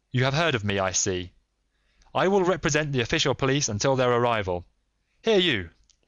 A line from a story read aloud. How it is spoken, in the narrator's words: he shouted to a frightened groom